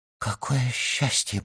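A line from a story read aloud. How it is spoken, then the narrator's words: Whisper. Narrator (Russian): прошептала она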